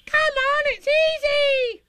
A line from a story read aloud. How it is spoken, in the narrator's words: squeaked Roo